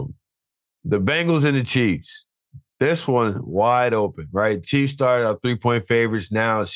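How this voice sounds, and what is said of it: Usual voice. Nothing is said of it.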